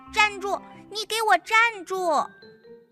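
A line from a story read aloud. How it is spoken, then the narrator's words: Hurried shout. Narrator (Chinese): 何恩赶忙叫道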